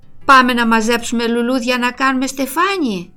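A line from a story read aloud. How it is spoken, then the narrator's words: Cheerful. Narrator (Greek): είπε χαρούμενα η Ρούλα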